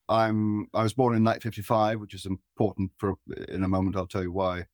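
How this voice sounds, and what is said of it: English accent. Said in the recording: “otherwise I sound English”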